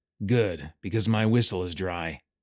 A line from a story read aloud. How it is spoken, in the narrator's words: So Markham just grunted